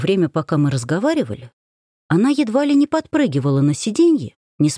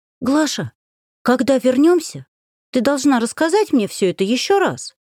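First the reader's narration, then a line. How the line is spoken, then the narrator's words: Exclaiming. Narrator (Russian): воскликнула Варенька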